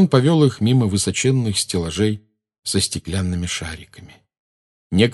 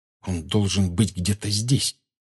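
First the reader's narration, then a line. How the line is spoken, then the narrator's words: Whispered. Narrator (Russian): прошептал Гарри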